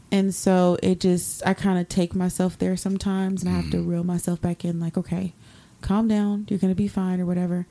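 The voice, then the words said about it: Tired, strained, fading voice. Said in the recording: “my throat hurts, by the way. Like, I can tell that I'm really tired. My throat's hurting and my voice is going.”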